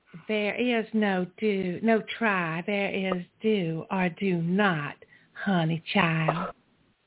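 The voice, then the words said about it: Yoda impression with southern accent. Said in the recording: “Can you do a Yoda imitation using a southern accent?”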